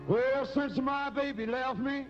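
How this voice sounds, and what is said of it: Imitates a rock and roll singer. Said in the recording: “impersonation of a rock and roll singer impersonating Elvis”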